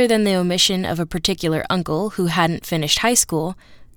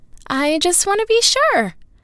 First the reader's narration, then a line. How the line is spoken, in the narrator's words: said Cecilia, her tone rising a bit